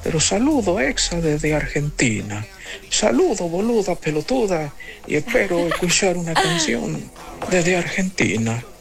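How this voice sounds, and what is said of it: Convincing put-on Argentine Spanish accent. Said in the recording (Spanish): “¡Ándale, desde Argentina! Oye, qué bien te sale ese acento, ¿eh? Me quedé así de que impresionada.”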